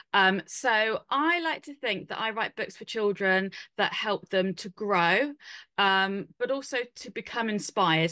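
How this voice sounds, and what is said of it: British accent. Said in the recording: “you can probably tell from my accent, I am based here in the UK.”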